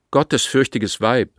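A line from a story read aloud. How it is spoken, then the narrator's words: Called out. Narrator (German): rief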